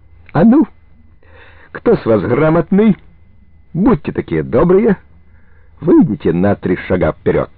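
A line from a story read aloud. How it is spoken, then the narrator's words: Shouting with fake cheer. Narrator (Russian): Антощенко закричал наигранно веселым голосом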